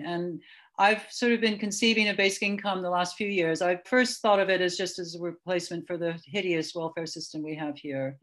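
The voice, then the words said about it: American accent. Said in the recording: “I am from the US. You can hear that in my voice”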